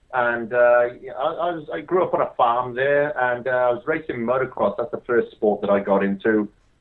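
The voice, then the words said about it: Welsh accent. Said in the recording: “I grew up in Wales, hence the weird accent.”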